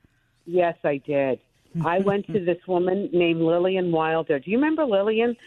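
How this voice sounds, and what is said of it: Brooklyn accent. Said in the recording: “the Brooklyn accent. You never tried, pardon the expression, to get rid of it?”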